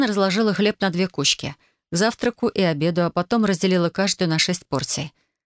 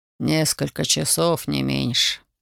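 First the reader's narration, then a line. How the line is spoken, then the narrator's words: Tired father. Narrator (Russian): устало произнес отец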